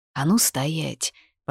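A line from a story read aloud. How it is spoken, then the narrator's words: Muttered. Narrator (Russian): пробормотал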